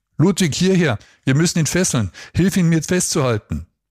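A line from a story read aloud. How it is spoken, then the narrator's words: Called out. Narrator (German): rief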